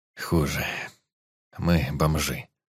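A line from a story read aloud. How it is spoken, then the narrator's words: Father sighing. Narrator (Russian): вздохнул отец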